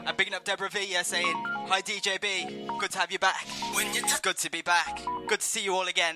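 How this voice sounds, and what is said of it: Birmingham English accent. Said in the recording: “Excuse the Birmingham accent... I just sound like a chav.”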